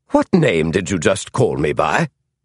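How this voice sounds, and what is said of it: Upper-class British accent. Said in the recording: “The Scandinavian accent was gone now. The voice was distinctly upper-class British and nothing else.”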